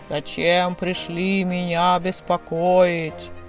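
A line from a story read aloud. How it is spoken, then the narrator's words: Menacing booming voice. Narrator (Russian): Грозно загремел дух озера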